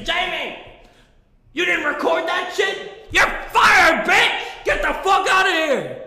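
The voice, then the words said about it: Angry yelling. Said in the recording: “I'm yelling ... I'm just yelling at myself”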